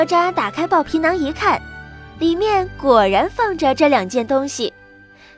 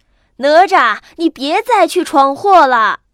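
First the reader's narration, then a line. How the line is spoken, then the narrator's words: Anxious hurried shout. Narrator (Chinese): 急得师傅忙不迭声地喊道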